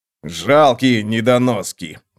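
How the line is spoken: Grumbling. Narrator (Russian): пробурчал он

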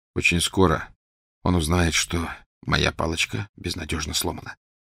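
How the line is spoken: Quiet. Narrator (Russian): тихо сказал Гарри

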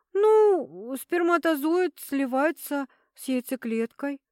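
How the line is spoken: Confused mumble. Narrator (Russian): промямлила она, видимо, не понимая, почему врач спрашивает ее о таких глупостях

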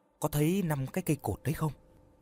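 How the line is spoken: Soft. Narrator (Vietnamese): Tuấn khẽ nói

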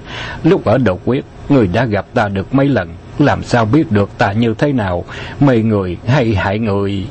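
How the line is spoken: Laughing. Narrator (Vietnamese): Bạc Phong Hàn bật cười nói

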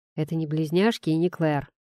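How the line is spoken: Grumble. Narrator (Russian): проворчал я

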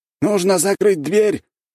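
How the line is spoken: Man shouting out. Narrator (Russian): выкрикнул мужчина на третьем ярусе кровати

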